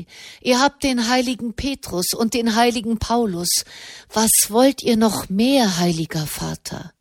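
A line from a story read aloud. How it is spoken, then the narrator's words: Sighing. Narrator (German): Wieder seufzte er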